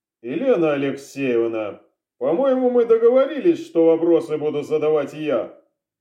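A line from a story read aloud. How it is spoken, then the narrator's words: Dry reminder. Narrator (Russian): сухо напомнил сыщик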